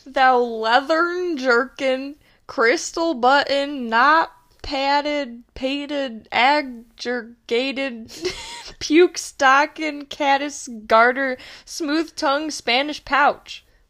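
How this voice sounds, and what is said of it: Put-on Southern US accent. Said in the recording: “I just love, like, insult, like, in talking in, like, a southern accent.”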